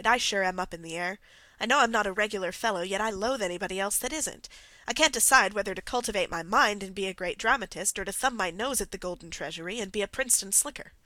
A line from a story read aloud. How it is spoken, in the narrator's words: he sighed